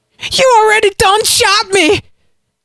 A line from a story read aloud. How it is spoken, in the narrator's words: Buck screamed